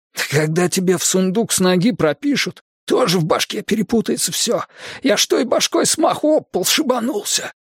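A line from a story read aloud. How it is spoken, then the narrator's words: Hoarse defensive explaining. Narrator (Russian): Сипло оправдывался парень со странным прозвищем Гриб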